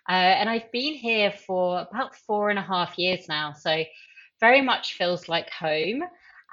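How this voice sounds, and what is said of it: British accent. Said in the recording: “as you can probably tell by my accent, I'm from the UK originally”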